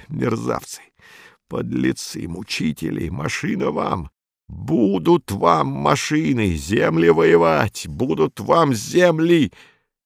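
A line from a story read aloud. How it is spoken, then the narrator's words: Through gritted teeth. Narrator (Russian): Саул говорил сквозь зубы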